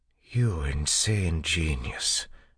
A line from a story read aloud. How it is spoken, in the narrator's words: Doxson whispered